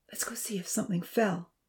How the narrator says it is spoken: Amy whispered to Zaheer

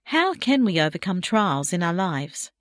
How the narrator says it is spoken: he asked

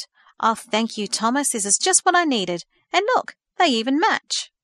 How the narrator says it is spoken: she exclaimed

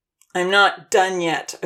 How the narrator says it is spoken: Odin said in a grouchy tone of voice

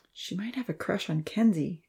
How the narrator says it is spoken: Evan suggested quietly

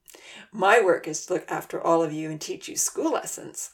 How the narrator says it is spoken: Uncle Louis chuckled

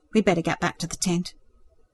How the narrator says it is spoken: he nodded stiffly in response and murmured

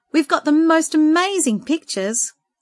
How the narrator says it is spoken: Esther shouted

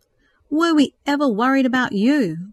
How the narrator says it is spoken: Craig exclaimed

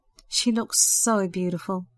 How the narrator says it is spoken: Sandra sighed happily

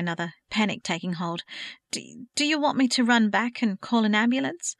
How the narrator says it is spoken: Kate asked, her voice wavering

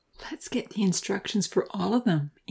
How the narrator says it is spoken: Amy whispered secretively in his ear

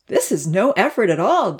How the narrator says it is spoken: Damien exclaimed

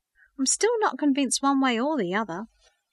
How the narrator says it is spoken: he sighed

